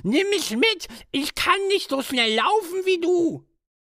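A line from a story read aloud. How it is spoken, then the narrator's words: Frog calling out. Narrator (German): rief der Frosch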